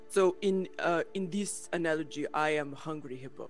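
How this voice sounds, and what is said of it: Put-on Russian accent. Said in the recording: “Did you just go Russian? ... I did. My accent's all over the place.”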